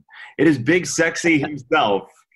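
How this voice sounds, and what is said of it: Bill Curtis impression, announcer voice. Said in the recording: “I did a Bill Curtis impersonation.”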